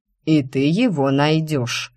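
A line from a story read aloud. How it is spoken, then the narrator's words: Stern interruption. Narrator (Russian): сурово перебил меня декан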